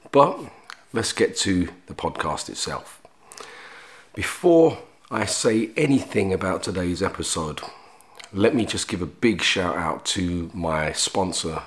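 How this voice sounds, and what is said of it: Congested voice, has a cold. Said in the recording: “I'm a little under the weather today ... I'm a little congested and I have a little bit of a cold.”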